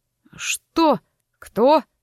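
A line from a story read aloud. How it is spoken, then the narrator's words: Irritated question. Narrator (Russian): раздраженно спросил он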